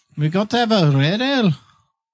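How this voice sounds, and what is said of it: Put-on accent, not quite right. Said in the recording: “I don't think that's the right accent, but I'm doing it anyway.”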